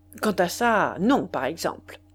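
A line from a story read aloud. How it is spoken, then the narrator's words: Abrupt, almost harsh. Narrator (French): Il répondit brusquement, presque durement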